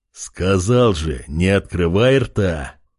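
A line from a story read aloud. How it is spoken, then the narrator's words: Big man's growl. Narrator (Russian): рыкнул здоровяк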